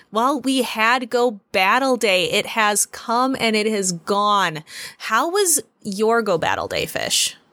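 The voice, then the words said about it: Australian accent. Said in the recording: “a Midwestern and Australian accent”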